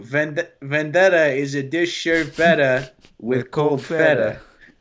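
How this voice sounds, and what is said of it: Put-on Greek accent. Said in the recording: “Are you Italian? ... Greek. ... Yeah, Greek.”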